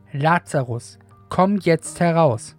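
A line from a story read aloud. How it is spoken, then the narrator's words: Loud mighty call. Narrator (German): Jesus rief er mit gewaltiger Stimme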